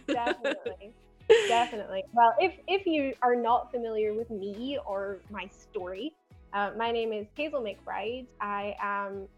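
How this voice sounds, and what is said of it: Mild Scottish Glasgow accent. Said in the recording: “as you might be able to tell from my accent, even though it's a bit dulled down, I'm originally from Glasgow in Scotland”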